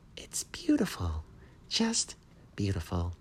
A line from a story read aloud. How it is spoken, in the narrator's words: he said in his little high voice